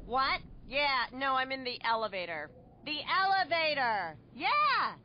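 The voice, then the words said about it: Shouting phone caller in elevator. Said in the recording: “my impression of a person having a phone conversation in the elevator”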